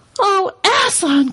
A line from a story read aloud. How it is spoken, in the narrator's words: cried both the children, almost as much frightened as they were glad